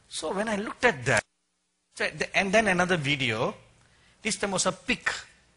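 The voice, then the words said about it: Indian accent. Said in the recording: “I'm sorry for my Indian accent.”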